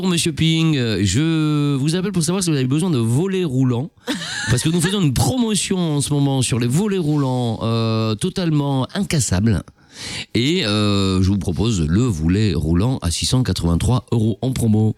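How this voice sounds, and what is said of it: Poor put-on French accent. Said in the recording (French): “ton accent français est tout pourri”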